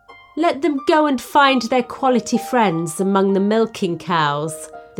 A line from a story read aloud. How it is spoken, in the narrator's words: the townsfolk laughed, glad to see them humbled at last